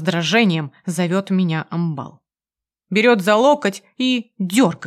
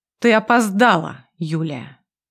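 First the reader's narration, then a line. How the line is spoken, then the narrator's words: Stern, displeased. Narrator (Russian): Звучит строго и недовольно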